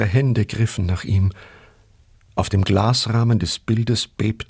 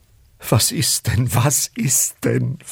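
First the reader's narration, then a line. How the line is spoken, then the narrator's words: Pleading wife. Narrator (German): flehte seine Frau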